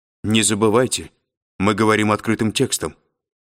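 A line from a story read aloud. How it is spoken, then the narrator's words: Sharp reminder. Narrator (Russian): резко напомнила Корделия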